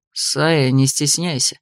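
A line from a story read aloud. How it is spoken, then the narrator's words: Sudden, through gritted teeth. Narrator (Russian): процедил вдруг Морвель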